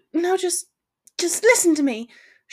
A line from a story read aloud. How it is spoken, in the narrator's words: she stuttered